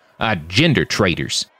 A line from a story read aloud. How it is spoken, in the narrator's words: said, and spat